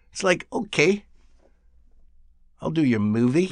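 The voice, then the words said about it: New Zealand accent imitation. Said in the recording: “That was a pretty good New Zealand accent. ... They like short I sounds.”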